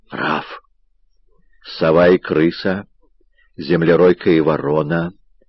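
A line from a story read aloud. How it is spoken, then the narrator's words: Muttered. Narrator (Russian): пробормотал Раф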